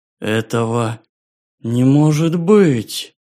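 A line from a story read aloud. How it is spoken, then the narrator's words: Hoarse, unwomanly voice. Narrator (Russian): Хриплым, неженским голосом произнесла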